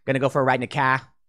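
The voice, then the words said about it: Mock Boston accent. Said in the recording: “the Boston accent. What is it? What is Massachusetts? Ka.”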